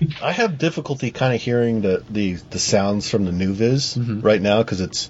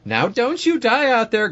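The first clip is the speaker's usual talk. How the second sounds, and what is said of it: Old grandmother character voice. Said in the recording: “grandma voice”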